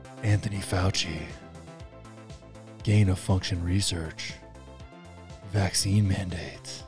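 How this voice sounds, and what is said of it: Sultry, ASMR-like voice. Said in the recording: “Bringing in my sultry voice today. I can hear it in my headphones. Ooh, it's like ASMR.”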